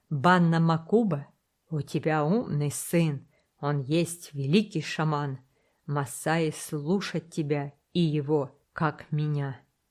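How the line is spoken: Slow, halting, struggling for words. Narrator (Russian): с трудом подбирая английские слова, медленно сказал

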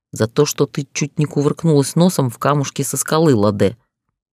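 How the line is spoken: Growled. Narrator (Russian): прорычал он

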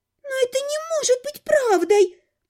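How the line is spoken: Thin girl's squeak. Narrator (Russian): пискнула одна из них, самая тощая

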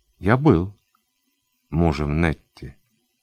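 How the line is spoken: Calm correction. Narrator (Russian): спокойно поправил

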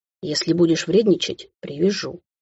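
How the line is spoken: Close whisper. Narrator (Russian): шепнул он у моих губ

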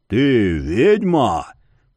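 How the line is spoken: Growling. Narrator (Russian): прорычал он

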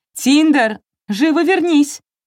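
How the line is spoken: Shout. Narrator (Russian): крикнула

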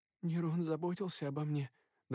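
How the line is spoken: Trembling voice. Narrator (Russian): дрожащим голосом произнесла она

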